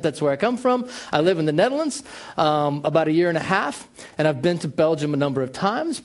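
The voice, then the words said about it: American accent. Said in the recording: “I have a very American accent.”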